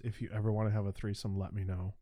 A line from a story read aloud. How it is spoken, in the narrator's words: she like whispered in my ears